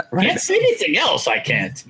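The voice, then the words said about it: Yoda character voice impression. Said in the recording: “That was good impression. ... That's your Yoda? ... It's my Yoda, yeah.”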